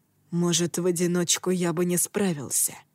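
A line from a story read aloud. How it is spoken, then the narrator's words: Quiet reply. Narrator (Russian): ответил Тацуми негромко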